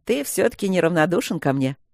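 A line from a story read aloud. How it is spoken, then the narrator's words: Laughing over phone. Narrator (Russian): засмеялся тот в трубку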